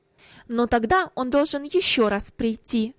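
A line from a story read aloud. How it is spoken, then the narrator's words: Sharp reply, mother. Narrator (Russian): ответила резко мать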